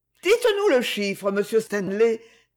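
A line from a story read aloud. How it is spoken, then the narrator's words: Slightly ironic. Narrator (French): fit Marjorie d'un ton légèrement ironique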